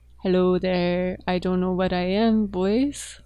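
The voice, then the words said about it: Funny, weird put-on character voice. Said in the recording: “I can do some funny, like, weird voices ... I can do this voice.”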